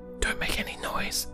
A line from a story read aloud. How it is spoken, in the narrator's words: whispered